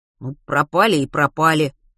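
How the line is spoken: Grumbled. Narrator (Russian): пробурчал Матвей

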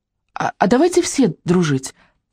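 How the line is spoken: Timid suggestion. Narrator (Russian): робко предложила Вика

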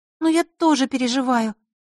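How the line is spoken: Sad. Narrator (Russian): добавила она грустно

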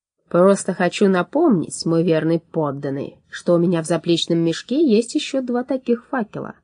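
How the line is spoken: Plain. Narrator (Russian): ответил алхимик

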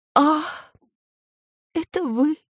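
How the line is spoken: Relieved sigh, muttering. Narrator (Russian): облегченно вздохнув, пробормотал подъездный

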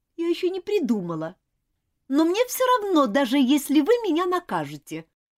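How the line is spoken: Offended. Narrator (Russian): обиженно произнесла Элизабет

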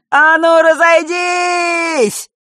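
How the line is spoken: Smirking, then sudden yell. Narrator (Russian): посоветовал Данила, ухмыльнувшись, и вдруг заорал

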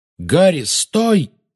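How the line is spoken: Exclaiming. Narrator (Russian): воскликнул Люпин

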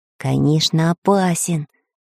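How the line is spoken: Whisper. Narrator (Russian): прошептал Самоделкин

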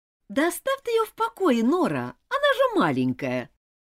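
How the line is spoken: Sarcastic remark. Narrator (Russian): язвительно заметила Рут

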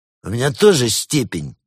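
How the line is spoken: Menacing. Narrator (Russian): грозно заявил Забастьян

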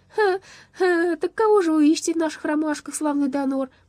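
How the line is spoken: Giggling question. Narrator (Russian): продолжая хихикать, спросил Лопастик

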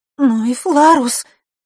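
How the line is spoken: Sobbing again. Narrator (Russian): вновь всхлипнула Василиса

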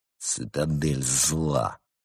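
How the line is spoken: Furious, through teeth. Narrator (Russian): яростно процедил сквозь зубы Константин

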